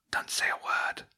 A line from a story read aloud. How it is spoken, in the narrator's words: a voice hissed quietly